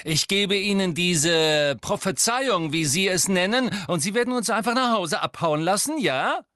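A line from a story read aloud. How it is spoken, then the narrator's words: Shrieking woman. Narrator (German): kreischte die Todesserin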